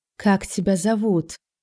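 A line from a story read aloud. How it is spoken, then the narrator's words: Hoarse question, knight. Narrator (Russian): хрипло спросил рыцарь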